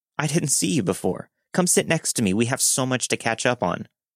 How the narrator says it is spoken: a woman in her early 20s called out to me with a random name and said

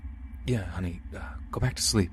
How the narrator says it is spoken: he said in an almost nervous voice

